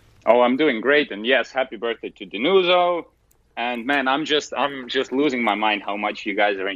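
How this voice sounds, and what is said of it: Usual voice. Nothing is said of it.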